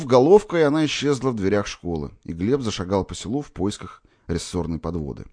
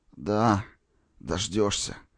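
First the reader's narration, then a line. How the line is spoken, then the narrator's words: Glad moan. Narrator (Russian): простонал Николай, обрадованный присутствием брата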